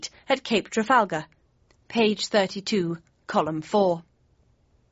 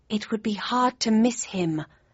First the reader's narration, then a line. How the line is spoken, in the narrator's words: I breathed